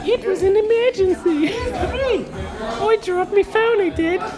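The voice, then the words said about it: Put-on Australian accent, high voice. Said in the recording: “an Australian accent ... I had to do it in a high voice ... this is how Australians sound to me”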